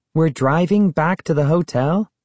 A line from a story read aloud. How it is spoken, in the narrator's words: Sari asked, her voice revealing surprise